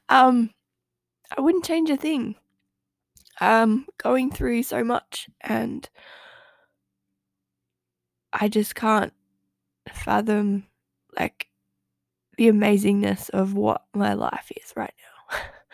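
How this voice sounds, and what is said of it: Emotional, halting voice. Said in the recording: “I'm getting a little bit emotional.”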